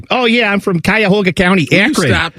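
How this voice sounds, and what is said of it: Put-on Cleveland accent. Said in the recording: “up in Cleveland, where everything's like ... You know that's how they talk. You hear it. You got the Nathan Segura accent.”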